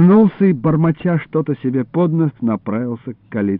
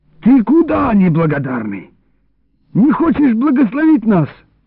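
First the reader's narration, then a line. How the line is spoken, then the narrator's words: Shouted. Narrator (Russian): крикнул Илларион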